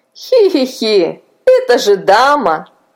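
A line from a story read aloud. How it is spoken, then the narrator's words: Laughing. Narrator (Russian): засмеялся Илья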